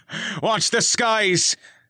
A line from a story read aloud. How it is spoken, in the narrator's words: Finnegan exclaimed with a laugh, but there was no mirth in it, only the strain of a man trying to predict the unpredictable